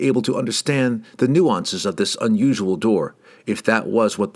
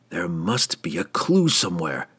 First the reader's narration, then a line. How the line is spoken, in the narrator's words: the drow groaned